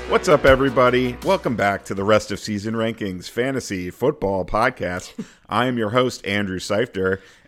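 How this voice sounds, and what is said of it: Game show host voice. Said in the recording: “talking like a game show host again”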